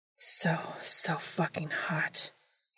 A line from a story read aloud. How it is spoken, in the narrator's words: he breathed